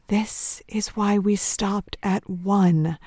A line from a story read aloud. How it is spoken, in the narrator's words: Michelle whispers